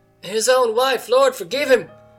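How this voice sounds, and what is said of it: Failed German woman's accent. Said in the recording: “I can't do a German woman accent, sorry.”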